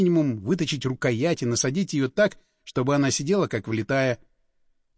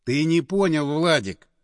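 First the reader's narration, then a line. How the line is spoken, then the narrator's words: Sighing. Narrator (Russian): вздохнул Андреев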